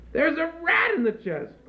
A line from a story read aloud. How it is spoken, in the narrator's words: cried the troll woman